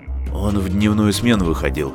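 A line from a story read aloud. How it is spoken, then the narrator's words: Workman muttering. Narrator (Russian): бормотал грузчик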